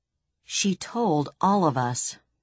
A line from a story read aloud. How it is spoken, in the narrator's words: snapped Braun Lamia